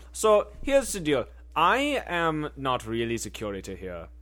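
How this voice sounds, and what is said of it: Put-on German accent. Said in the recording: “You may be wondering why I have the German accent”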